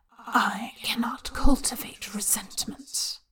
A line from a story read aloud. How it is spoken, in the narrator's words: the voice whispers through his skull